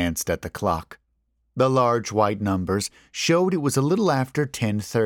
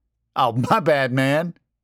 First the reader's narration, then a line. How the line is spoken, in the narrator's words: laughed back